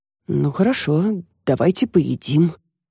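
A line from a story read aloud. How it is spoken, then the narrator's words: Confused mumble. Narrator (Russian): как-то растерянно пробормотал Костя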